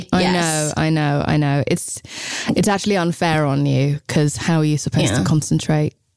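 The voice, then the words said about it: Hoarse, sick-sounding voice. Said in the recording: “sexy voice ... when I sound like this? I love a sick voice”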